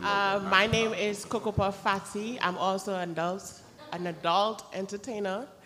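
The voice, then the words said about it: Trinidadian accent. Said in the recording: “I love your accent, Queen. Where is it from? ... I'm from Trinidad and Tobago.”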